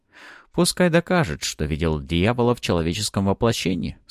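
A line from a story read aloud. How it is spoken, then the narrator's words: Calm reply. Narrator (Russian): спокойно ответил я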